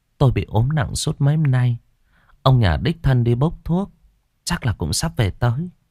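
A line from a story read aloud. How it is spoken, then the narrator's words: Sighing. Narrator (Vietnamese): Bà Bá thở dài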